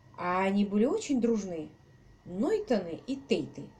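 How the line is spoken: Plain. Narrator (Russian): спросил он

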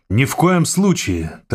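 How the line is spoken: Triumphant exclamation. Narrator (Russian): торжествуя, воскликнул инженер

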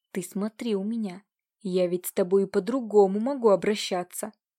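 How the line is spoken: Threatening hoarse rasp. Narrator (Russian): С угрозой прохрипел Нелидов

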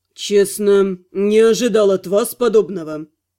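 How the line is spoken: Dry curt tone. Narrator (Russian): сухо проговорил магистр

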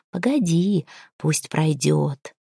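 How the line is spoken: Quiet speech. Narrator (Russian): ведьма остановилась, сказав негромко

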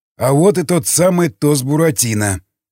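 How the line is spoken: Snorting smirk. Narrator (Russian): хмыкнул Крест

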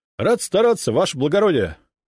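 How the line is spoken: Loud bark. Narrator (Russian): гаркнул я

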